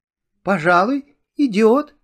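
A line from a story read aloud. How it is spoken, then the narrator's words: Uncertain. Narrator (Russian): неуверенно сказала Муми-мама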